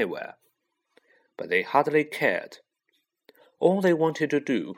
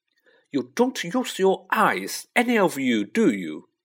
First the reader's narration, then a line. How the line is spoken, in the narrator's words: she snapped